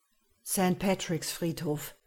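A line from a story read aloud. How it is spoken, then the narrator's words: Murmured aside. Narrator (German): raunte ich dem Taxifahrer zu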